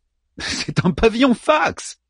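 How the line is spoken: Whiny younger sibling. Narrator (French): répondit son cadet d'une voix geignarde

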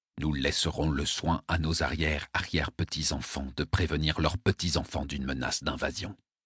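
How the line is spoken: Impassive murmur. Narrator (French): murmura l'amiral Nachita d'un air impassible

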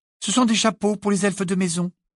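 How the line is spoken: Brusque reply. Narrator (French): répondit-elle d'un ton brusque

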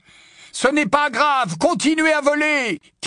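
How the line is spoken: Shouted. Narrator (French): cria Harry

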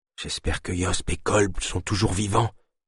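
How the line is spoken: Whispered in ear. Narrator (French): chuchota Naya à l'oreille de Delune

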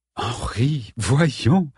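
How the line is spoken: Sighed. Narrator (French): soupira Madame Lodge

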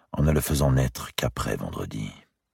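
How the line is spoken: Whispered into ear. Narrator (French): lui murmura Philippe à l'oreille

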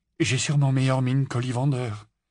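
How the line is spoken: Trembling voice. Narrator (French): répondit Harry d'une voix tremblante

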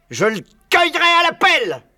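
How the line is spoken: Barking voice. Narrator (French): aboyait Buns

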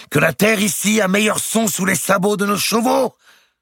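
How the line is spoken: Shouting into rushing wind. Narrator (French): criait-il dans le vent de la course

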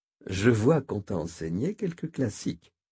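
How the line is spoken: Plain. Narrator (French): répondit Ismaïl

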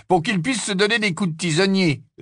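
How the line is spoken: Sneering. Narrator (French): ricana Harry

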